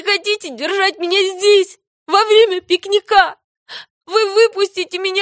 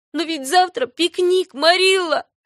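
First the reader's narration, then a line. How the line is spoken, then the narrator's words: Sobbing girl. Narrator (Russian): зарыдала девочка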